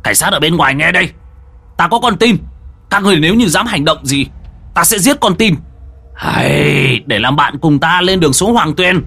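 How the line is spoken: Barked threat. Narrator (Vietnamese): Hàn Tu quát lên

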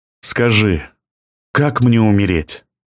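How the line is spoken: Breathy exhale. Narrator (Russian): Выдохнул Максим

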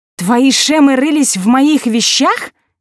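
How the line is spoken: Shriek. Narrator (Russian): взвизгнула Елена

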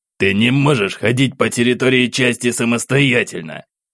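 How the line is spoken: Through gritted teeth. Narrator (Russian): Процедил боец

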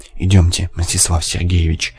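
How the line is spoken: Casual tone. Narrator (Russian): обыденным тоном сказал Высокий

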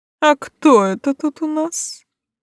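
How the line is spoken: Tender, eerie drawl. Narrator (Russian): Ласково и жутко протянул один из красавчиков

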